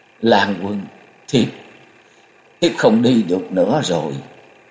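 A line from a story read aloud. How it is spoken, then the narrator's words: Trembling miserable voice. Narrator (Vietnamese): Thiếu phụ vẻ mặt thê thảm, cất giọng run run nói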